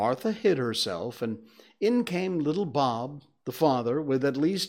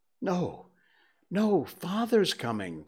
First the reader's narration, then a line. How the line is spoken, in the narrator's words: cried the two young Cratchits